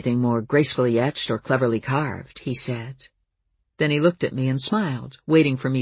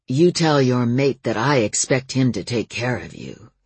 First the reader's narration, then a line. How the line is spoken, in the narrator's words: he growled